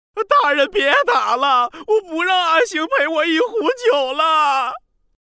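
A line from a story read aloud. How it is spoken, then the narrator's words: Pained wailing shout. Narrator (Chinese): 鲁宋疼得哭爹叫娘，喊道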